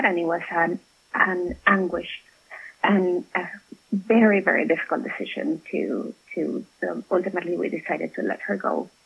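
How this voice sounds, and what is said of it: Choked-up, emotional voice. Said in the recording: “I'm getting a little bit choked up”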